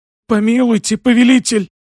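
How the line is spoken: Hoarse, trembling. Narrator (Russian): хрипела она дрожащим голосом

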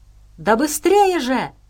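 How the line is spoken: Yelling. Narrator (Russian): завопил Максим

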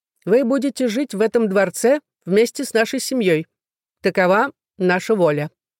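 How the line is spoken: King, loud commanding voice. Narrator (Russian): его величество громким властным голосом изрек

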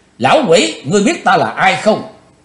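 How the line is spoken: Cold, detached shout. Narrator (Vietnamese): Chí Tôn lãnh đạm quát

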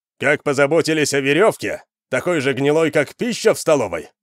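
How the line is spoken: Shouting. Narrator (Russian): выкрикнул Вандар

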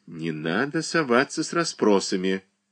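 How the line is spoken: Whispered, mother. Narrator (Russian): Мать шепнула

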